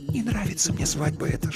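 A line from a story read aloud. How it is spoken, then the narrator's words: Whisper. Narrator (Russian): шепнула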